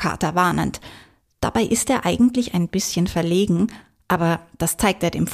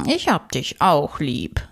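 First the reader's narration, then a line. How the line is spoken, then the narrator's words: Contented cat purring. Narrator (German): schnurrt der Kater zufrieden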